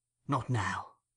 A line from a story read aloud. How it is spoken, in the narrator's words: said the Jew, turning softly away